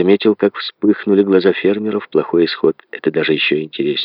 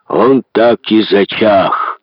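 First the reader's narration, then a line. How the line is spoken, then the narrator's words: Roar. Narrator (Russian): взревел Лэн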